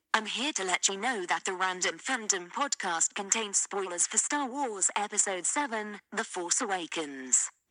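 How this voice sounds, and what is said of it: Put-on British accent. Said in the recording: “I'm doing a British accent so I will sound smarter”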